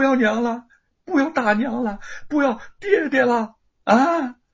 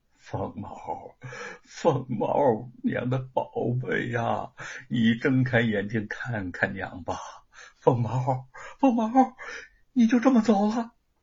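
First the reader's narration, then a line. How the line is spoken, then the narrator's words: Dazed murmur. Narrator (Chinese): 玉凤痴痴的…喃喃的说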